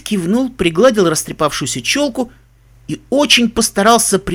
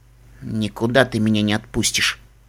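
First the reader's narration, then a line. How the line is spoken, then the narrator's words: Quiet, angry, sniffling to self. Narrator (Russian): тихо сказал он сам себе, сердито шмыгнув носом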